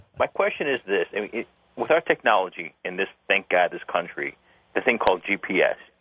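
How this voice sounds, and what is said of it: Chicago accent. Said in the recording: “Originally from Chicago with a silly accent”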